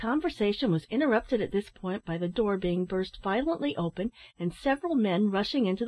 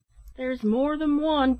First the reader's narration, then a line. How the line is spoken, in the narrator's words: cried another man